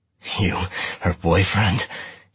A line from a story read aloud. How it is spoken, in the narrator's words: he said, panting